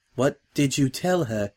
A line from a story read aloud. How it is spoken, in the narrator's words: Octavia asked faintly